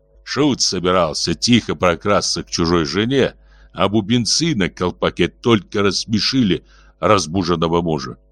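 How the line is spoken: Through gritted teeth. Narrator (Russian): сквозь зубы процедил Баака

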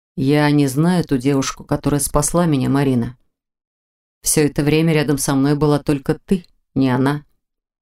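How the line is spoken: Spoken, heavy sigh. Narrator (Russian): проговорил Непогодин и шумно вздохнул

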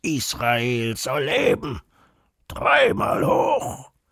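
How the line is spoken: Bursting out bellowing. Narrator (German): er brüllt los

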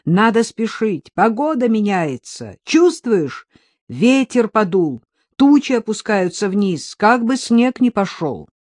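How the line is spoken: Shouted. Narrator (Russian): крикнул

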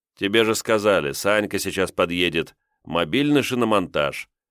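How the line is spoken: Grim smirk. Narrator (Russian): мрачно усмехнулся Кирилл

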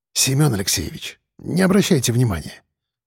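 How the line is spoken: Said quietly. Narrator (Russian): сказал тихо

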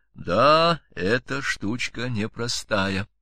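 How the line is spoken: Quiet speech. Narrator (Russian): он тихо сказал мне

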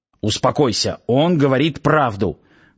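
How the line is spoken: Growled aloud. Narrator (Russian): вслух даже зарычал Сейд

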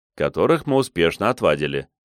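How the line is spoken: Snort. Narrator (Russian): хмыкнул

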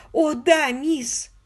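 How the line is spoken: Sobbing voice. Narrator (Russian): голос миссис Эшли снова утонул в рыданиях

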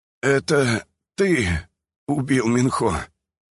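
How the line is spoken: Hoarse, strained words. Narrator (Russian): хрипло произнес я, буквально усилием воли выдавливая из себя слова

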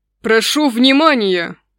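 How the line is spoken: Booming royal announcement. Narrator (Russian): зычным голосом объявил король

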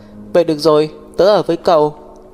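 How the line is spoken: Stunned sighing speech. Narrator (Vietnamese): Thiên Tuyết sửng sốt thở dài nói

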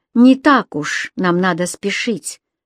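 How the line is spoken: Stern. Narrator (Russian): сказала она строго

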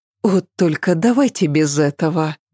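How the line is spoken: Soft. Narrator (Russian): мягко произнесла Ася

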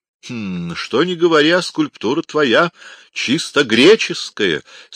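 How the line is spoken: Jubilant exclamation. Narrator (Russian): с ликованием воскликнул Полициану

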